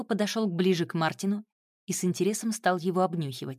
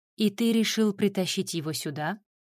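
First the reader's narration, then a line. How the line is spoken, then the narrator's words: Calm question. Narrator (Russian): спокойно уточнила она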